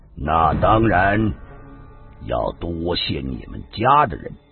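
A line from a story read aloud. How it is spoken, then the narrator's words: Slow, hesitant. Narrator (Chinese): 过了很久，他才缓缓的说道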